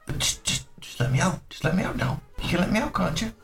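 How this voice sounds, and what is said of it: Small creepy male character voice. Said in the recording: “you hear a little male voice going ... It's not the same creepy voice.”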